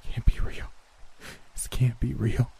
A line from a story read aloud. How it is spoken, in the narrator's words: I whimpered